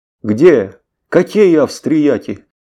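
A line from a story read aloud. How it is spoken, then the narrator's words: Loud exclamation. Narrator (Russian): громко возгласил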